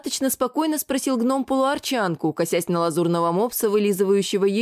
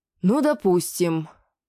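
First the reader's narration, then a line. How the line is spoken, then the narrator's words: Sighing. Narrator (Russian): вздохнул с Волли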